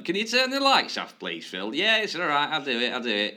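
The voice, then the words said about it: Generic northern English accent. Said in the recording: “That's not a very good French accent. ... everyone's northern when I do accents. ... I was just going for the generic kind of northern caretaker.”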